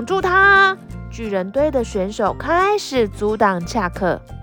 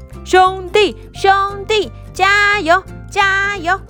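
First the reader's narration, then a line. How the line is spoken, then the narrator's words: Loud cheering. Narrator (Chinese): 啦啦队大声的鼓励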